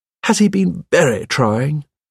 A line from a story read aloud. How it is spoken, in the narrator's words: My wife said in a sympathetic voice